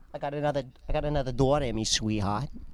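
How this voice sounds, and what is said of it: Put-on Bronx accent. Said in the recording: “in an accent for no reason ... in a Bronx accent”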